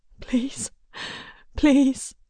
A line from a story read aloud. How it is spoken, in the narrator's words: Jess sobs